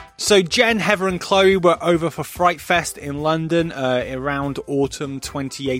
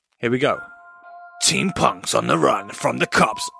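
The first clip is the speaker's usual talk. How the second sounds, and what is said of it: Dramatic horror movie trailer voice. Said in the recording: “I'll try it in my best horror movie voice... That just sounds fucking weird”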